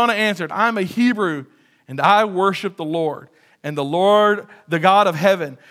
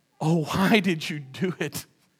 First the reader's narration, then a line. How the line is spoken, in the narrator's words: They groaned